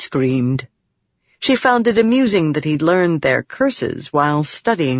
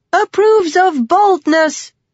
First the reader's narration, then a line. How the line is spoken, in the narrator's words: she yelled back at Talik